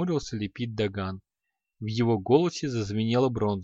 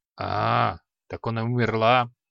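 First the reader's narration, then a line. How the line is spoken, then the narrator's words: Mage grumbling. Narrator (Russian): проворчал маг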